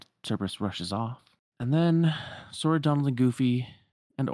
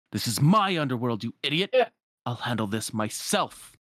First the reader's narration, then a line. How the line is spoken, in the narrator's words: Hades, like, leans out the window and snaps